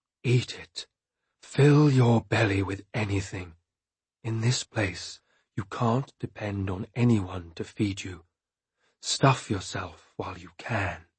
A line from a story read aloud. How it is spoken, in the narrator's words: Wolffather whispered to me